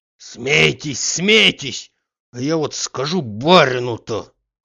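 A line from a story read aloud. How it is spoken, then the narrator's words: Hoarse wheeze. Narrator (Russian): хрипел Захар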